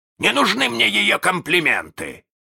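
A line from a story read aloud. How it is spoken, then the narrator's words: Offended bark. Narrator (Russian): рявкнул с обидой Крюк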